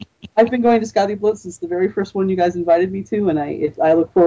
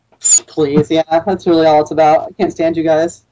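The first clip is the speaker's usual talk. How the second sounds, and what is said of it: Sarcastic tone. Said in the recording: “That's absolutely sarcastic for anybody who might have missed that tone of voice.”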